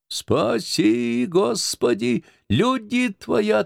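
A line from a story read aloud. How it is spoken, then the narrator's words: Loud, whistling, shrieking demand. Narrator (Russian): требовал Воропонов подчеркнуто громко, с присвистом, вывизгивая слово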